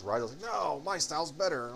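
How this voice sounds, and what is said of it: Imitates another person's voice. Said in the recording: “I'm giving myself a Vinny Bucci accent there”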